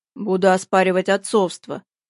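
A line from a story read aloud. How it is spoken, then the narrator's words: Gloomy reply. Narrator (Russian): мрачно ответил Антон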